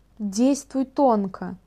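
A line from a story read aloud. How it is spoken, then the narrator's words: Telepathic whisper. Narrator (Russian): мысленно прошептала Цилия в мозгу Ашантуруса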